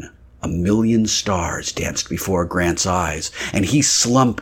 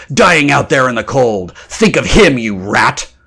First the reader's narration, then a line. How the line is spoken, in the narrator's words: Grant growled